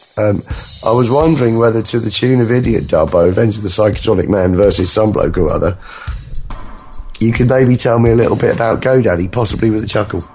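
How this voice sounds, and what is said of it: Weak, strained voice. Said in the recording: “my voice is hanging by a thread again”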